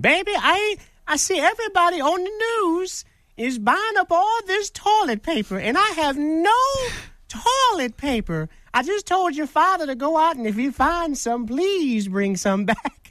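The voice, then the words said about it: Impression of elderly grandmother. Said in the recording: “That's a pretty good impression of Grandma”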